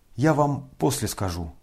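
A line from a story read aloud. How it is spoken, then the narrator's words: Quiet and serious. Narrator (Russian): сказал он тихо и серьезно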